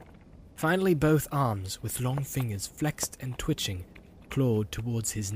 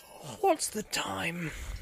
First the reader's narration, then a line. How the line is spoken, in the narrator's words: He said sleepily